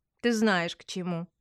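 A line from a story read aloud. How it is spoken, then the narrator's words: Meaningful snort, falsely smiling. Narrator (Russian): Ди многозначительно хмыкнула, фальшиво улыбаясь, проговорила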